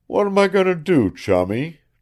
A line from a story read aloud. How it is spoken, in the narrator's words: demanded Link brokenly